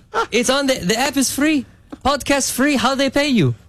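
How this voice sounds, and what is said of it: Put-on accent imitating another person. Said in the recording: “My dad doesn't have an accent. It's just funnier for the story.”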